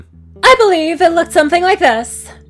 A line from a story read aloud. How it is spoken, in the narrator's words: Rarity shouted